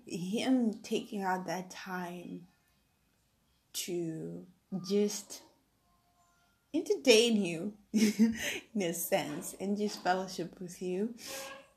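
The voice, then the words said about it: Teary, emotional voice. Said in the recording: “I'm, I'm, I'm a bit teary”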